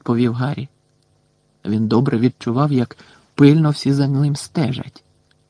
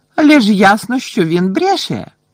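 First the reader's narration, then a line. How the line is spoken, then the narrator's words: Exclaimed. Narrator (Ukrainian): вигукнула мадам Максім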